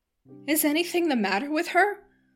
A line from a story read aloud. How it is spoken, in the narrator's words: cried Mrs